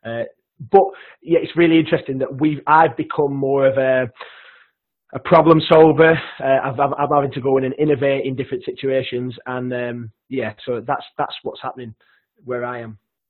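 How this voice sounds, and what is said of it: Broad Lancashire English accent. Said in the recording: “sorry for my broad Lancashire accent as well. I'm conscious when I'm speaking now that it probably is really broad.”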